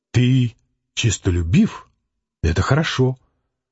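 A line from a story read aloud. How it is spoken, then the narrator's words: Gentle soothing mother. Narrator (Russian): Мать ласково, успокаивая его, сказала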